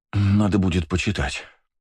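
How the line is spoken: Tired. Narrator (Russian): сказала Света устало

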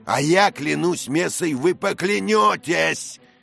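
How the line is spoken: Furious shouting. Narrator (Russian): кричал сэр Дэниел вне себя от бешенства

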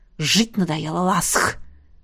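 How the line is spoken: Gritted teeth, warrior. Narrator (Russian): процедил белый воин

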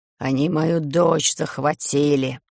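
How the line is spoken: Hoarse vampire. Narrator (Russian): хрипит вампир

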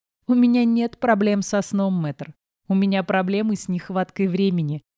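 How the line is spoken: Laughing. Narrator (Russian): рассмеялась я

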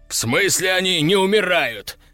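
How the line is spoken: Yelled. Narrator (Russian): заорал Степан

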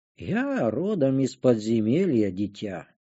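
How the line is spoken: Calm mentor. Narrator (Russian): проговорил наставник спокойно

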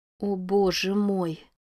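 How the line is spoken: Quiet, powerless voice. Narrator (Russian): тихим бессильным голосом произнесла Рози

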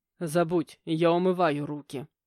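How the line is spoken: Angry bark. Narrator (Russian): рявкнул отчим

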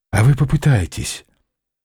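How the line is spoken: Quiet plea, young man. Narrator (Russian): тихо попросил парень

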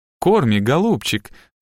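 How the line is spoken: Cooing. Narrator (Russian): заворковала Хелли

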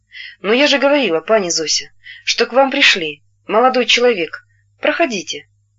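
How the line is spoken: Calm, gentle. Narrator (Russian): Она сказала спокойно и ласково

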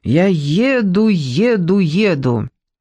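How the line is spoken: Loud toddler chanting. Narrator (Russian): мальчик, не умевший еще толком говорить, громко приговаривал

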